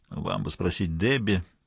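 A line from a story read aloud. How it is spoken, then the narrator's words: Mumbling. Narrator (Russian): пробормотал бармен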